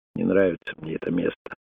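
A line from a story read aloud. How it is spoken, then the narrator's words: Quiet. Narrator (Russian): тихо сказал Крейгу Тунгата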